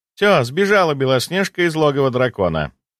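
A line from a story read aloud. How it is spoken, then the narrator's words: Laughing. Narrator (Russian): Рассмеялась Морозова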